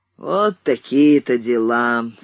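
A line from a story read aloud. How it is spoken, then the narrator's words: Gloomy. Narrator (Russian): сказал дядя Юра уныло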